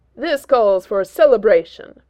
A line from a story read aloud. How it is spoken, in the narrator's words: Thor booms suddenly